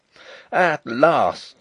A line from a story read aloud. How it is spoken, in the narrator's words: I cried